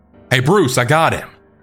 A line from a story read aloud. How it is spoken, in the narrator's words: yelled out